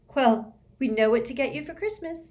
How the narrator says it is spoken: said Hermione brightly

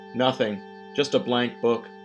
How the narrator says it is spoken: Fontaine said

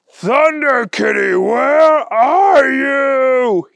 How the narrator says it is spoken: He yelled at the top of his lungs

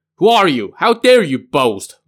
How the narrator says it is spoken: Luo Xuan asked angrily

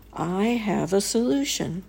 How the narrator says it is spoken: The swami, who was a very wise and kindly man, said to him

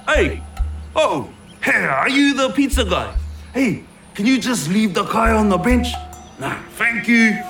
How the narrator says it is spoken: yells out

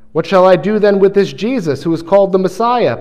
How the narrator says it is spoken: Pilate asked

